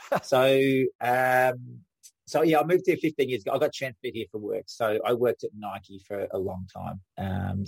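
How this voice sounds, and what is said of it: Strong Australian accent. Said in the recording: “an Aussie ... my accent hasn't got any softer ... I think it gets stronger every year”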